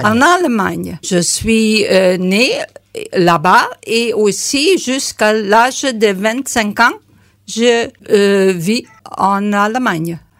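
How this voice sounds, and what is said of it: Slight German-English accent in French. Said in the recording (French): “vous avez un petit accent ... C'est un peu mélangé d'allemand et anglais.”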